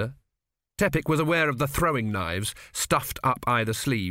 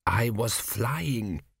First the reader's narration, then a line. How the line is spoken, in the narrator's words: he whispered